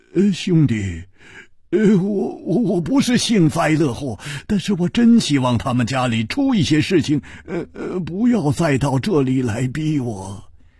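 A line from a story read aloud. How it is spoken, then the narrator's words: Sighing, wry smile. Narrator (Chinese): 他叹了一口气，苦笑着说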